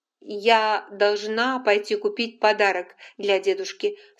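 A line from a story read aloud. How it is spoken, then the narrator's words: Loud. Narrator (Russian): сказала она громко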